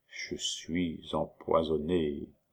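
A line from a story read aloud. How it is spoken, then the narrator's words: Low, curt voice. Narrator (French): prononça le comte d'une voix basse et brève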